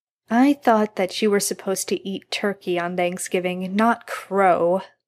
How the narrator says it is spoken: Jared mock complained ... sighing

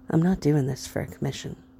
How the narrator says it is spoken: he said softly

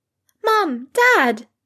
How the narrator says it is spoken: exclaimed Rose, practically buzzing

